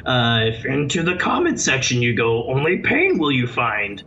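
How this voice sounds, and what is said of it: Imitates Yoda's voice, badly. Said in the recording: “my terrible Yoda impression”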